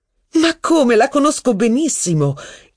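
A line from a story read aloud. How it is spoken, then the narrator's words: Muffled exclamation. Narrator (Italian): esclamò Madame de Guermantes, mettendosi una mano davanti alla bocca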